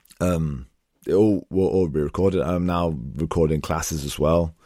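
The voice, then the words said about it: Husky, failing voice. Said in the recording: “my voice is going. It sounds terrible. ... This may be the huskiest audio recording of a podcast we've ever done.”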